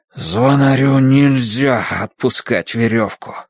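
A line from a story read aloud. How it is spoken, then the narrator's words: Breathless, straining. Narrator (Russian): выдохнул он, дергая изо всех сил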